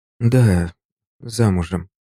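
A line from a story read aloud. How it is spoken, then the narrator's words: Uncertain, hesitant answer. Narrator (Russian): неуверенно ответила женщина и даже сама поразилась неуверенности ответа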